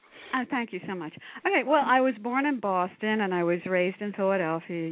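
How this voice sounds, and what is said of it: Nasal Philadelphia accent. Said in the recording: “my nasal Philadelphia accent, which I can't get rid of”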